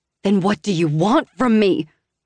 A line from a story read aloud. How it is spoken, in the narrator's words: almost shout, losing the precarious hold I had on my temper, but mindful of our daughter enough to quiet my volume